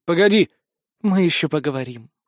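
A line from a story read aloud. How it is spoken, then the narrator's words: Ominous promising tone. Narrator (Russian): многообещающим тоном заявила система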